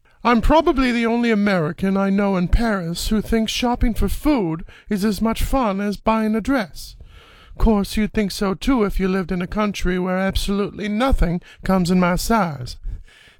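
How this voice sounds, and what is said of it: Julia Child impression. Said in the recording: “No effects on the voice whatsoever. Just a decent impersonation ... That's my Julia Child ... That's pretty good.”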